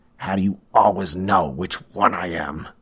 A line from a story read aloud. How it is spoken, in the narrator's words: Burns growled through clenched teeth